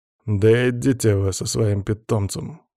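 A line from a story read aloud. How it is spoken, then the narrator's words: Grumbling. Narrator (Russian): пробурчал некромант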